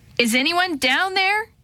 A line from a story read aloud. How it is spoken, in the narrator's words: she shouted into the howling wind